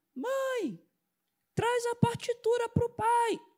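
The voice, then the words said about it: Loud projected shout imitating someone. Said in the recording (Portuguese): “você está com um tom errado. A sua mãe nunca vai ouvir ... Imitando o filho”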